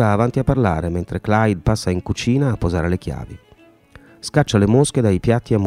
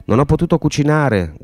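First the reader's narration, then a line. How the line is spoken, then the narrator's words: Woman shouting. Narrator (Italian): grida lei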